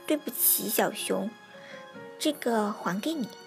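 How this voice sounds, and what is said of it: Quiet, soft-spoken line. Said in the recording (Chinese): “小声地说”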